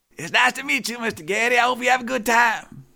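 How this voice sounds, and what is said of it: Imitates another person's voice. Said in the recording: “I don't know how good my Strom Thurmond impression is anymore, but that's as close as it goes.”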